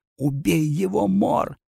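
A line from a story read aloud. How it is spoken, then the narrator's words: Trembling near-silent plea. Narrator (Russian): одними дрожащими губами взмолилась Лавина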